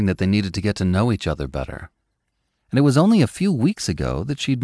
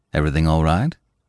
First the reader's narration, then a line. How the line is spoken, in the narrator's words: he asked